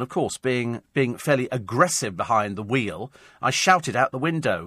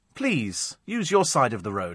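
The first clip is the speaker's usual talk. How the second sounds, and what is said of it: Put-on posh Etonian accent. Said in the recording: “I said in my best Etonian accent”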